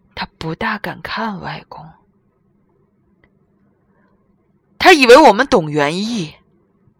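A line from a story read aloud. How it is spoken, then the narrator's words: Whispering in Spanish. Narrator (Chinese): 小柯用西班牙语小声说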